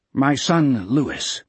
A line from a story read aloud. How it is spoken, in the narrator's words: the captain said stiffly